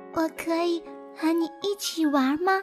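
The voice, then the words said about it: Soft, quiet little voice. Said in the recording (Chinese): “小野兔小声地说”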